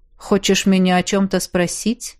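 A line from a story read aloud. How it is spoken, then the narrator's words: Cold question. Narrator (Russian): холодно поинтересовался Эрик Эльсар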